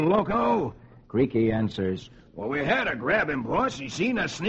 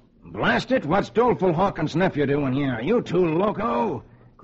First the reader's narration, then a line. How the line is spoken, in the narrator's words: Seeing the boy, he exclaims